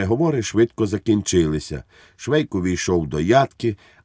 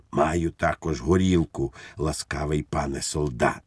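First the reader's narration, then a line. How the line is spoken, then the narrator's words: Whisper. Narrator (Ukrainian): пейсатий пан прошепотів йому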